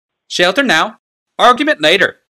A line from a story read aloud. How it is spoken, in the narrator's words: Tokasia broke in sharply